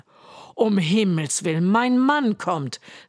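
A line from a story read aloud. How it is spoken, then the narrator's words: Woman calling out. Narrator (German): rief die Frau des Riesen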